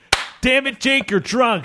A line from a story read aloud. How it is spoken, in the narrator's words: said the bartender